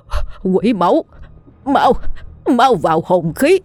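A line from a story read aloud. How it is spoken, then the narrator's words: Helpless screaming. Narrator (Vietnamese): lão hậu bất lực gào thét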